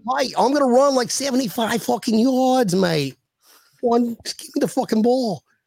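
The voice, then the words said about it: Imitated English-Australian accent of another person. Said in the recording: “I try to do his imitation ... That's also partially Australian ... it's amazing every time he does it”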